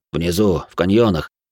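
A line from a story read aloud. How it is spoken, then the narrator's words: Gruff mutter. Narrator (Russian): буркнул Айс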